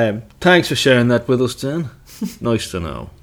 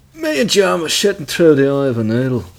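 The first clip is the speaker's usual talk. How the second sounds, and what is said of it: Attempted Dublin accent. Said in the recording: “It's hard to do a Dublin accent.”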